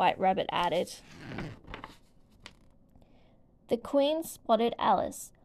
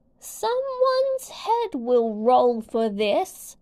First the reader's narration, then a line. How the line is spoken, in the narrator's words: she bellowed at Alice